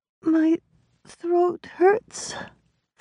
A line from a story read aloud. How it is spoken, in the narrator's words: Flora whimpered, struggling for breath